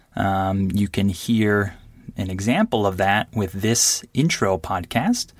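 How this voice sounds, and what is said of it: Very clear, slightly slowed speech. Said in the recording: “I'm going to be speaking very clearly as clear as I can... I'll be speaking just a little bit more slowly than I would normally speak with other Americans or other native speakers. So I'm not speaking really slowly.”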